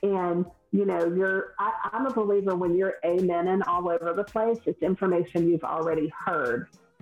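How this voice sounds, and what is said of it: Southern US accent. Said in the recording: “I'm from the South, if no one can tell by my accent, I'm Southern.”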